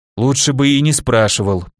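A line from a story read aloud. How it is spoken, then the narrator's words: Grumbling. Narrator (Russian): проворчал на такой ответ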